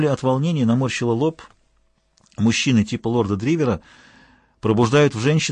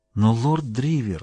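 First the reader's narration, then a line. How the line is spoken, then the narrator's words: Soft, gentle. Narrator (Russian): начала она мягко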